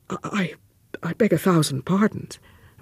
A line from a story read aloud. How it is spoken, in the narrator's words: Ralph murmured